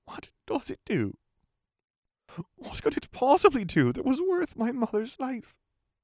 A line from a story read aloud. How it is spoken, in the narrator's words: He sighed as if mentally drained